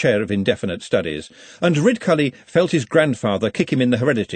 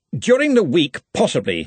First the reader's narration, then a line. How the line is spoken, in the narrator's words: he snapped